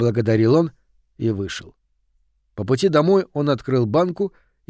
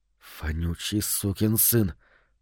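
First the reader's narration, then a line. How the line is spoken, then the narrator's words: Whispered. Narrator (Russian): прошептал он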